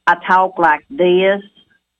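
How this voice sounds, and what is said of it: Exaggerated Southern Indiana accent. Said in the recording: “if I want to get real Southern Indiana ... That's my real Indiana accent. But since I'm on the radio, I want to talk, you know, better.”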